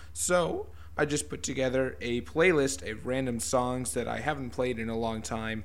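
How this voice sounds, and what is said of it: Sick, unwell-sounding voice. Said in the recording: “sick for the last few days ... I won't be talking as much as you can probably hear from my voice. I am not 100%”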